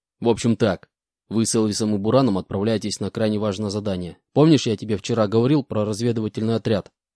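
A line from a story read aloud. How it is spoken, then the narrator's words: Stern question. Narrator (Russian): суровым голосом спросил у меня Иванович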